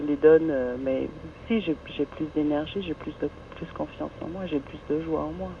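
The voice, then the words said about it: Very slight German accent. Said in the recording (French): “vous avez un très léger accent? ... Allemand.”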